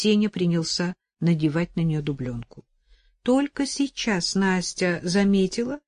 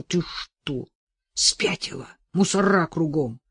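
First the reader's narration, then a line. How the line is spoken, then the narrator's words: Hissed. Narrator (Russian): Сеня прошипел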